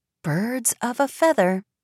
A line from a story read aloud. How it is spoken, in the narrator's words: Tilda murmured